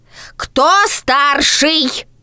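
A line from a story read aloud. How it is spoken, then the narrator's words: Shouting. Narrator (Russian): Сорока напряглась и крикнула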